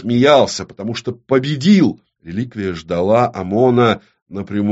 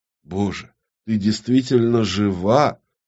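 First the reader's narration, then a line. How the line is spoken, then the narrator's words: Stunned mutter. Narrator (Russian): Пробормотал он, поражаясь неистовой злобе, которую древняя реликвия сумела передать без слов, одним только звуком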